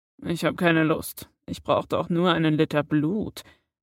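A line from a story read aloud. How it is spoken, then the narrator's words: Quiet grumbling. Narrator (German): maulte Severus leise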